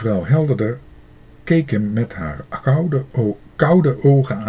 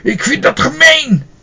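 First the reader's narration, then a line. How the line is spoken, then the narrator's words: Calling out. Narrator (Dutch): Hij vergat helemaal dat hij bang was voor mevrouw Helderder en hij riep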